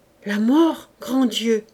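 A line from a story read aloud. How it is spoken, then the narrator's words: Shouting. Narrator (French): s'écria Clélia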